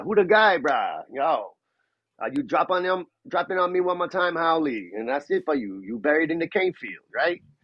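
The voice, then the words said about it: Put-on Hawaiian pidgin, laid-back. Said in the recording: “the pidgin dialect is really, it's cool, it's lazy, it's laid back”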